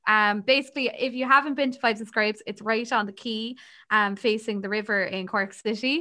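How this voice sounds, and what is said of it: Usual voice. Nothing is said of it.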